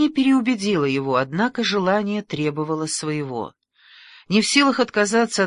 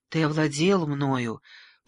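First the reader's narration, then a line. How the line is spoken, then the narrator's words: Whispering. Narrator (Russian): продолжала шептать Каталина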